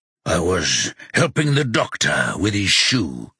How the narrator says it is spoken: he says gruffly

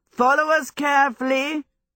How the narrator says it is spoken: he shouted back to the Scarecrow

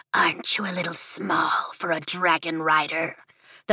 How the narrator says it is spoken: the Venon hisses

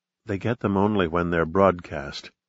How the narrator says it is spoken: she whispered

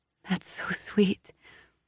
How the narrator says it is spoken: she whispers

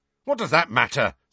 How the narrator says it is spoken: said George hotly

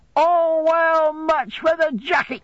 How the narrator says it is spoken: cried the old man after examining it

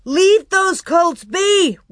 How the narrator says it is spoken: Royal shouted

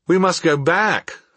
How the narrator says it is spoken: I cried

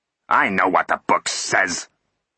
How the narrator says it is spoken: snapped Root

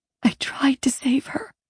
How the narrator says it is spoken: I whispered

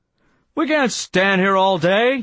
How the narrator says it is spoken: he blurted

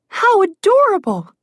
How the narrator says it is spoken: Alex squealed at first sight of the town

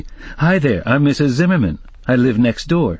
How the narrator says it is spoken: said cheerfully

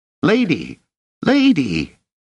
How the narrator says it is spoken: shouting in a squeak

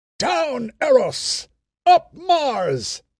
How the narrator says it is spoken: he shouted

